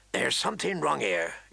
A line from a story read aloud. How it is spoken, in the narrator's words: Garrett muttered